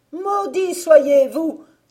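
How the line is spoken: Old woman's cry. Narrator (French): s'écria la vieille

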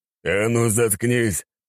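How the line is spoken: Barked. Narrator (Russian): рявкнул Аршавин

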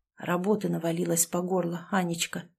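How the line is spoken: Whispered. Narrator (Russian): шепотом ответил Артем

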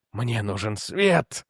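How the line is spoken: Pleading whisper. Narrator (Russian): прошептал Мастерс так, будто просил воды

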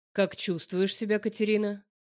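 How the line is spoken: Calm question. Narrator (Russian): Спрашивает спокойно

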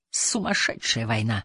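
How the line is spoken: Hoarse guttural whisper. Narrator (Russian): добавил Махмуд Мелбаф хриплым гортанным шепотом

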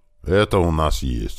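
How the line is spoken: Grumbling. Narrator (Russian): снова пробурчал Иван

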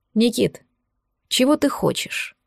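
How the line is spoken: Weary question. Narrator (Russian): устало вопросил Кирилл

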